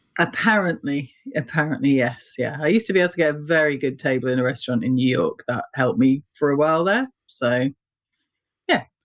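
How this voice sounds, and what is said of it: British accent. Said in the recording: “you do have a British accent”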